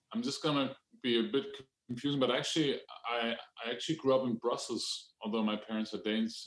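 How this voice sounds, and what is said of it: Indistinct mixed European English accent. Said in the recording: “my undistinct English accent ... It's kind of like European melting”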